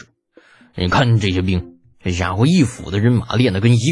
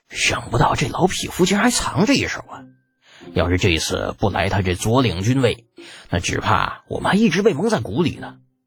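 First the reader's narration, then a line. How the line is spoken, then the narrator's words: Low muttering. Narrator (Chinese): 纷纷低声嘀咕起来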